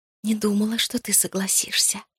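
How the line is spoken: Whisper. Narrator (Russian): прошептала я

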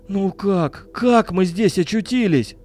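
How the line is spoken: Moaning. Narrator (Russian): простонал Миша

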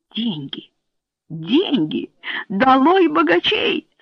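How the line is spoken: Enthusiastic exclamation. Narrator (Russian): с энтузиазмом воскликнула леди Корк, которая была радикальной либералкой

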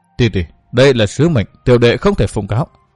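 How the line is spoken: Apologetic. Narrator (Vietnamese): Văn Thiên Hào tỏ vẻ áy náy nói

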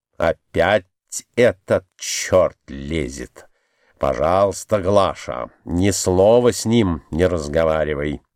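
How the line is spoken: Frowning mutter. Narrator (Russian): Он нахмурившись, пробормотал

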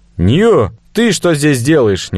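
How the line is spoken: Impulsive shout. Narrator (Russian): не удержавшись, крикнул я

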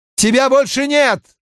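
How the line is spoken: Shout. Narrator (Russian): крикнул Ранд

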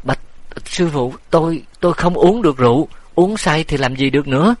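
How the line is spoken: Frightened stammering. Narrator (Vietnamese): Tiểu nhị xanh mặt lắp bắp

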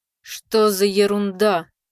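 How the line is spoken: Muttering under breath. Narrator (Russian): пробурчал тот себе под нос

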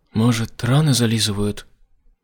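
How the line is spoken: Gloomy. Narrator (Russian): мрачно предположила она

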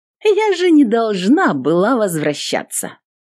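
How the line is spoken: Sarcastic female warrior. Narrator (Russian): Язвительно напомнила воительница

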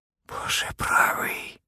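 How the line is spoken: Whisper. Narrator (Russian): прошептал мистер Скиннер

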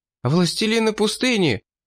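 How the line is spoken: Frightened child's exclamation. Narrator (Russian): испуганно воскликнул мальчик

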